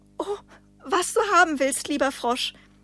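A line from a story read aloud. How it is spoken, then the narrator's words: Plain. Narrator (German): sagte sie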